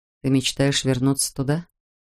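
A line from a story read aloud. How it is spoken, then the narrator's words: Very quiet question. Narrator (Russian): спросил Джек так тихо, что его слова тут же растаяли на ветру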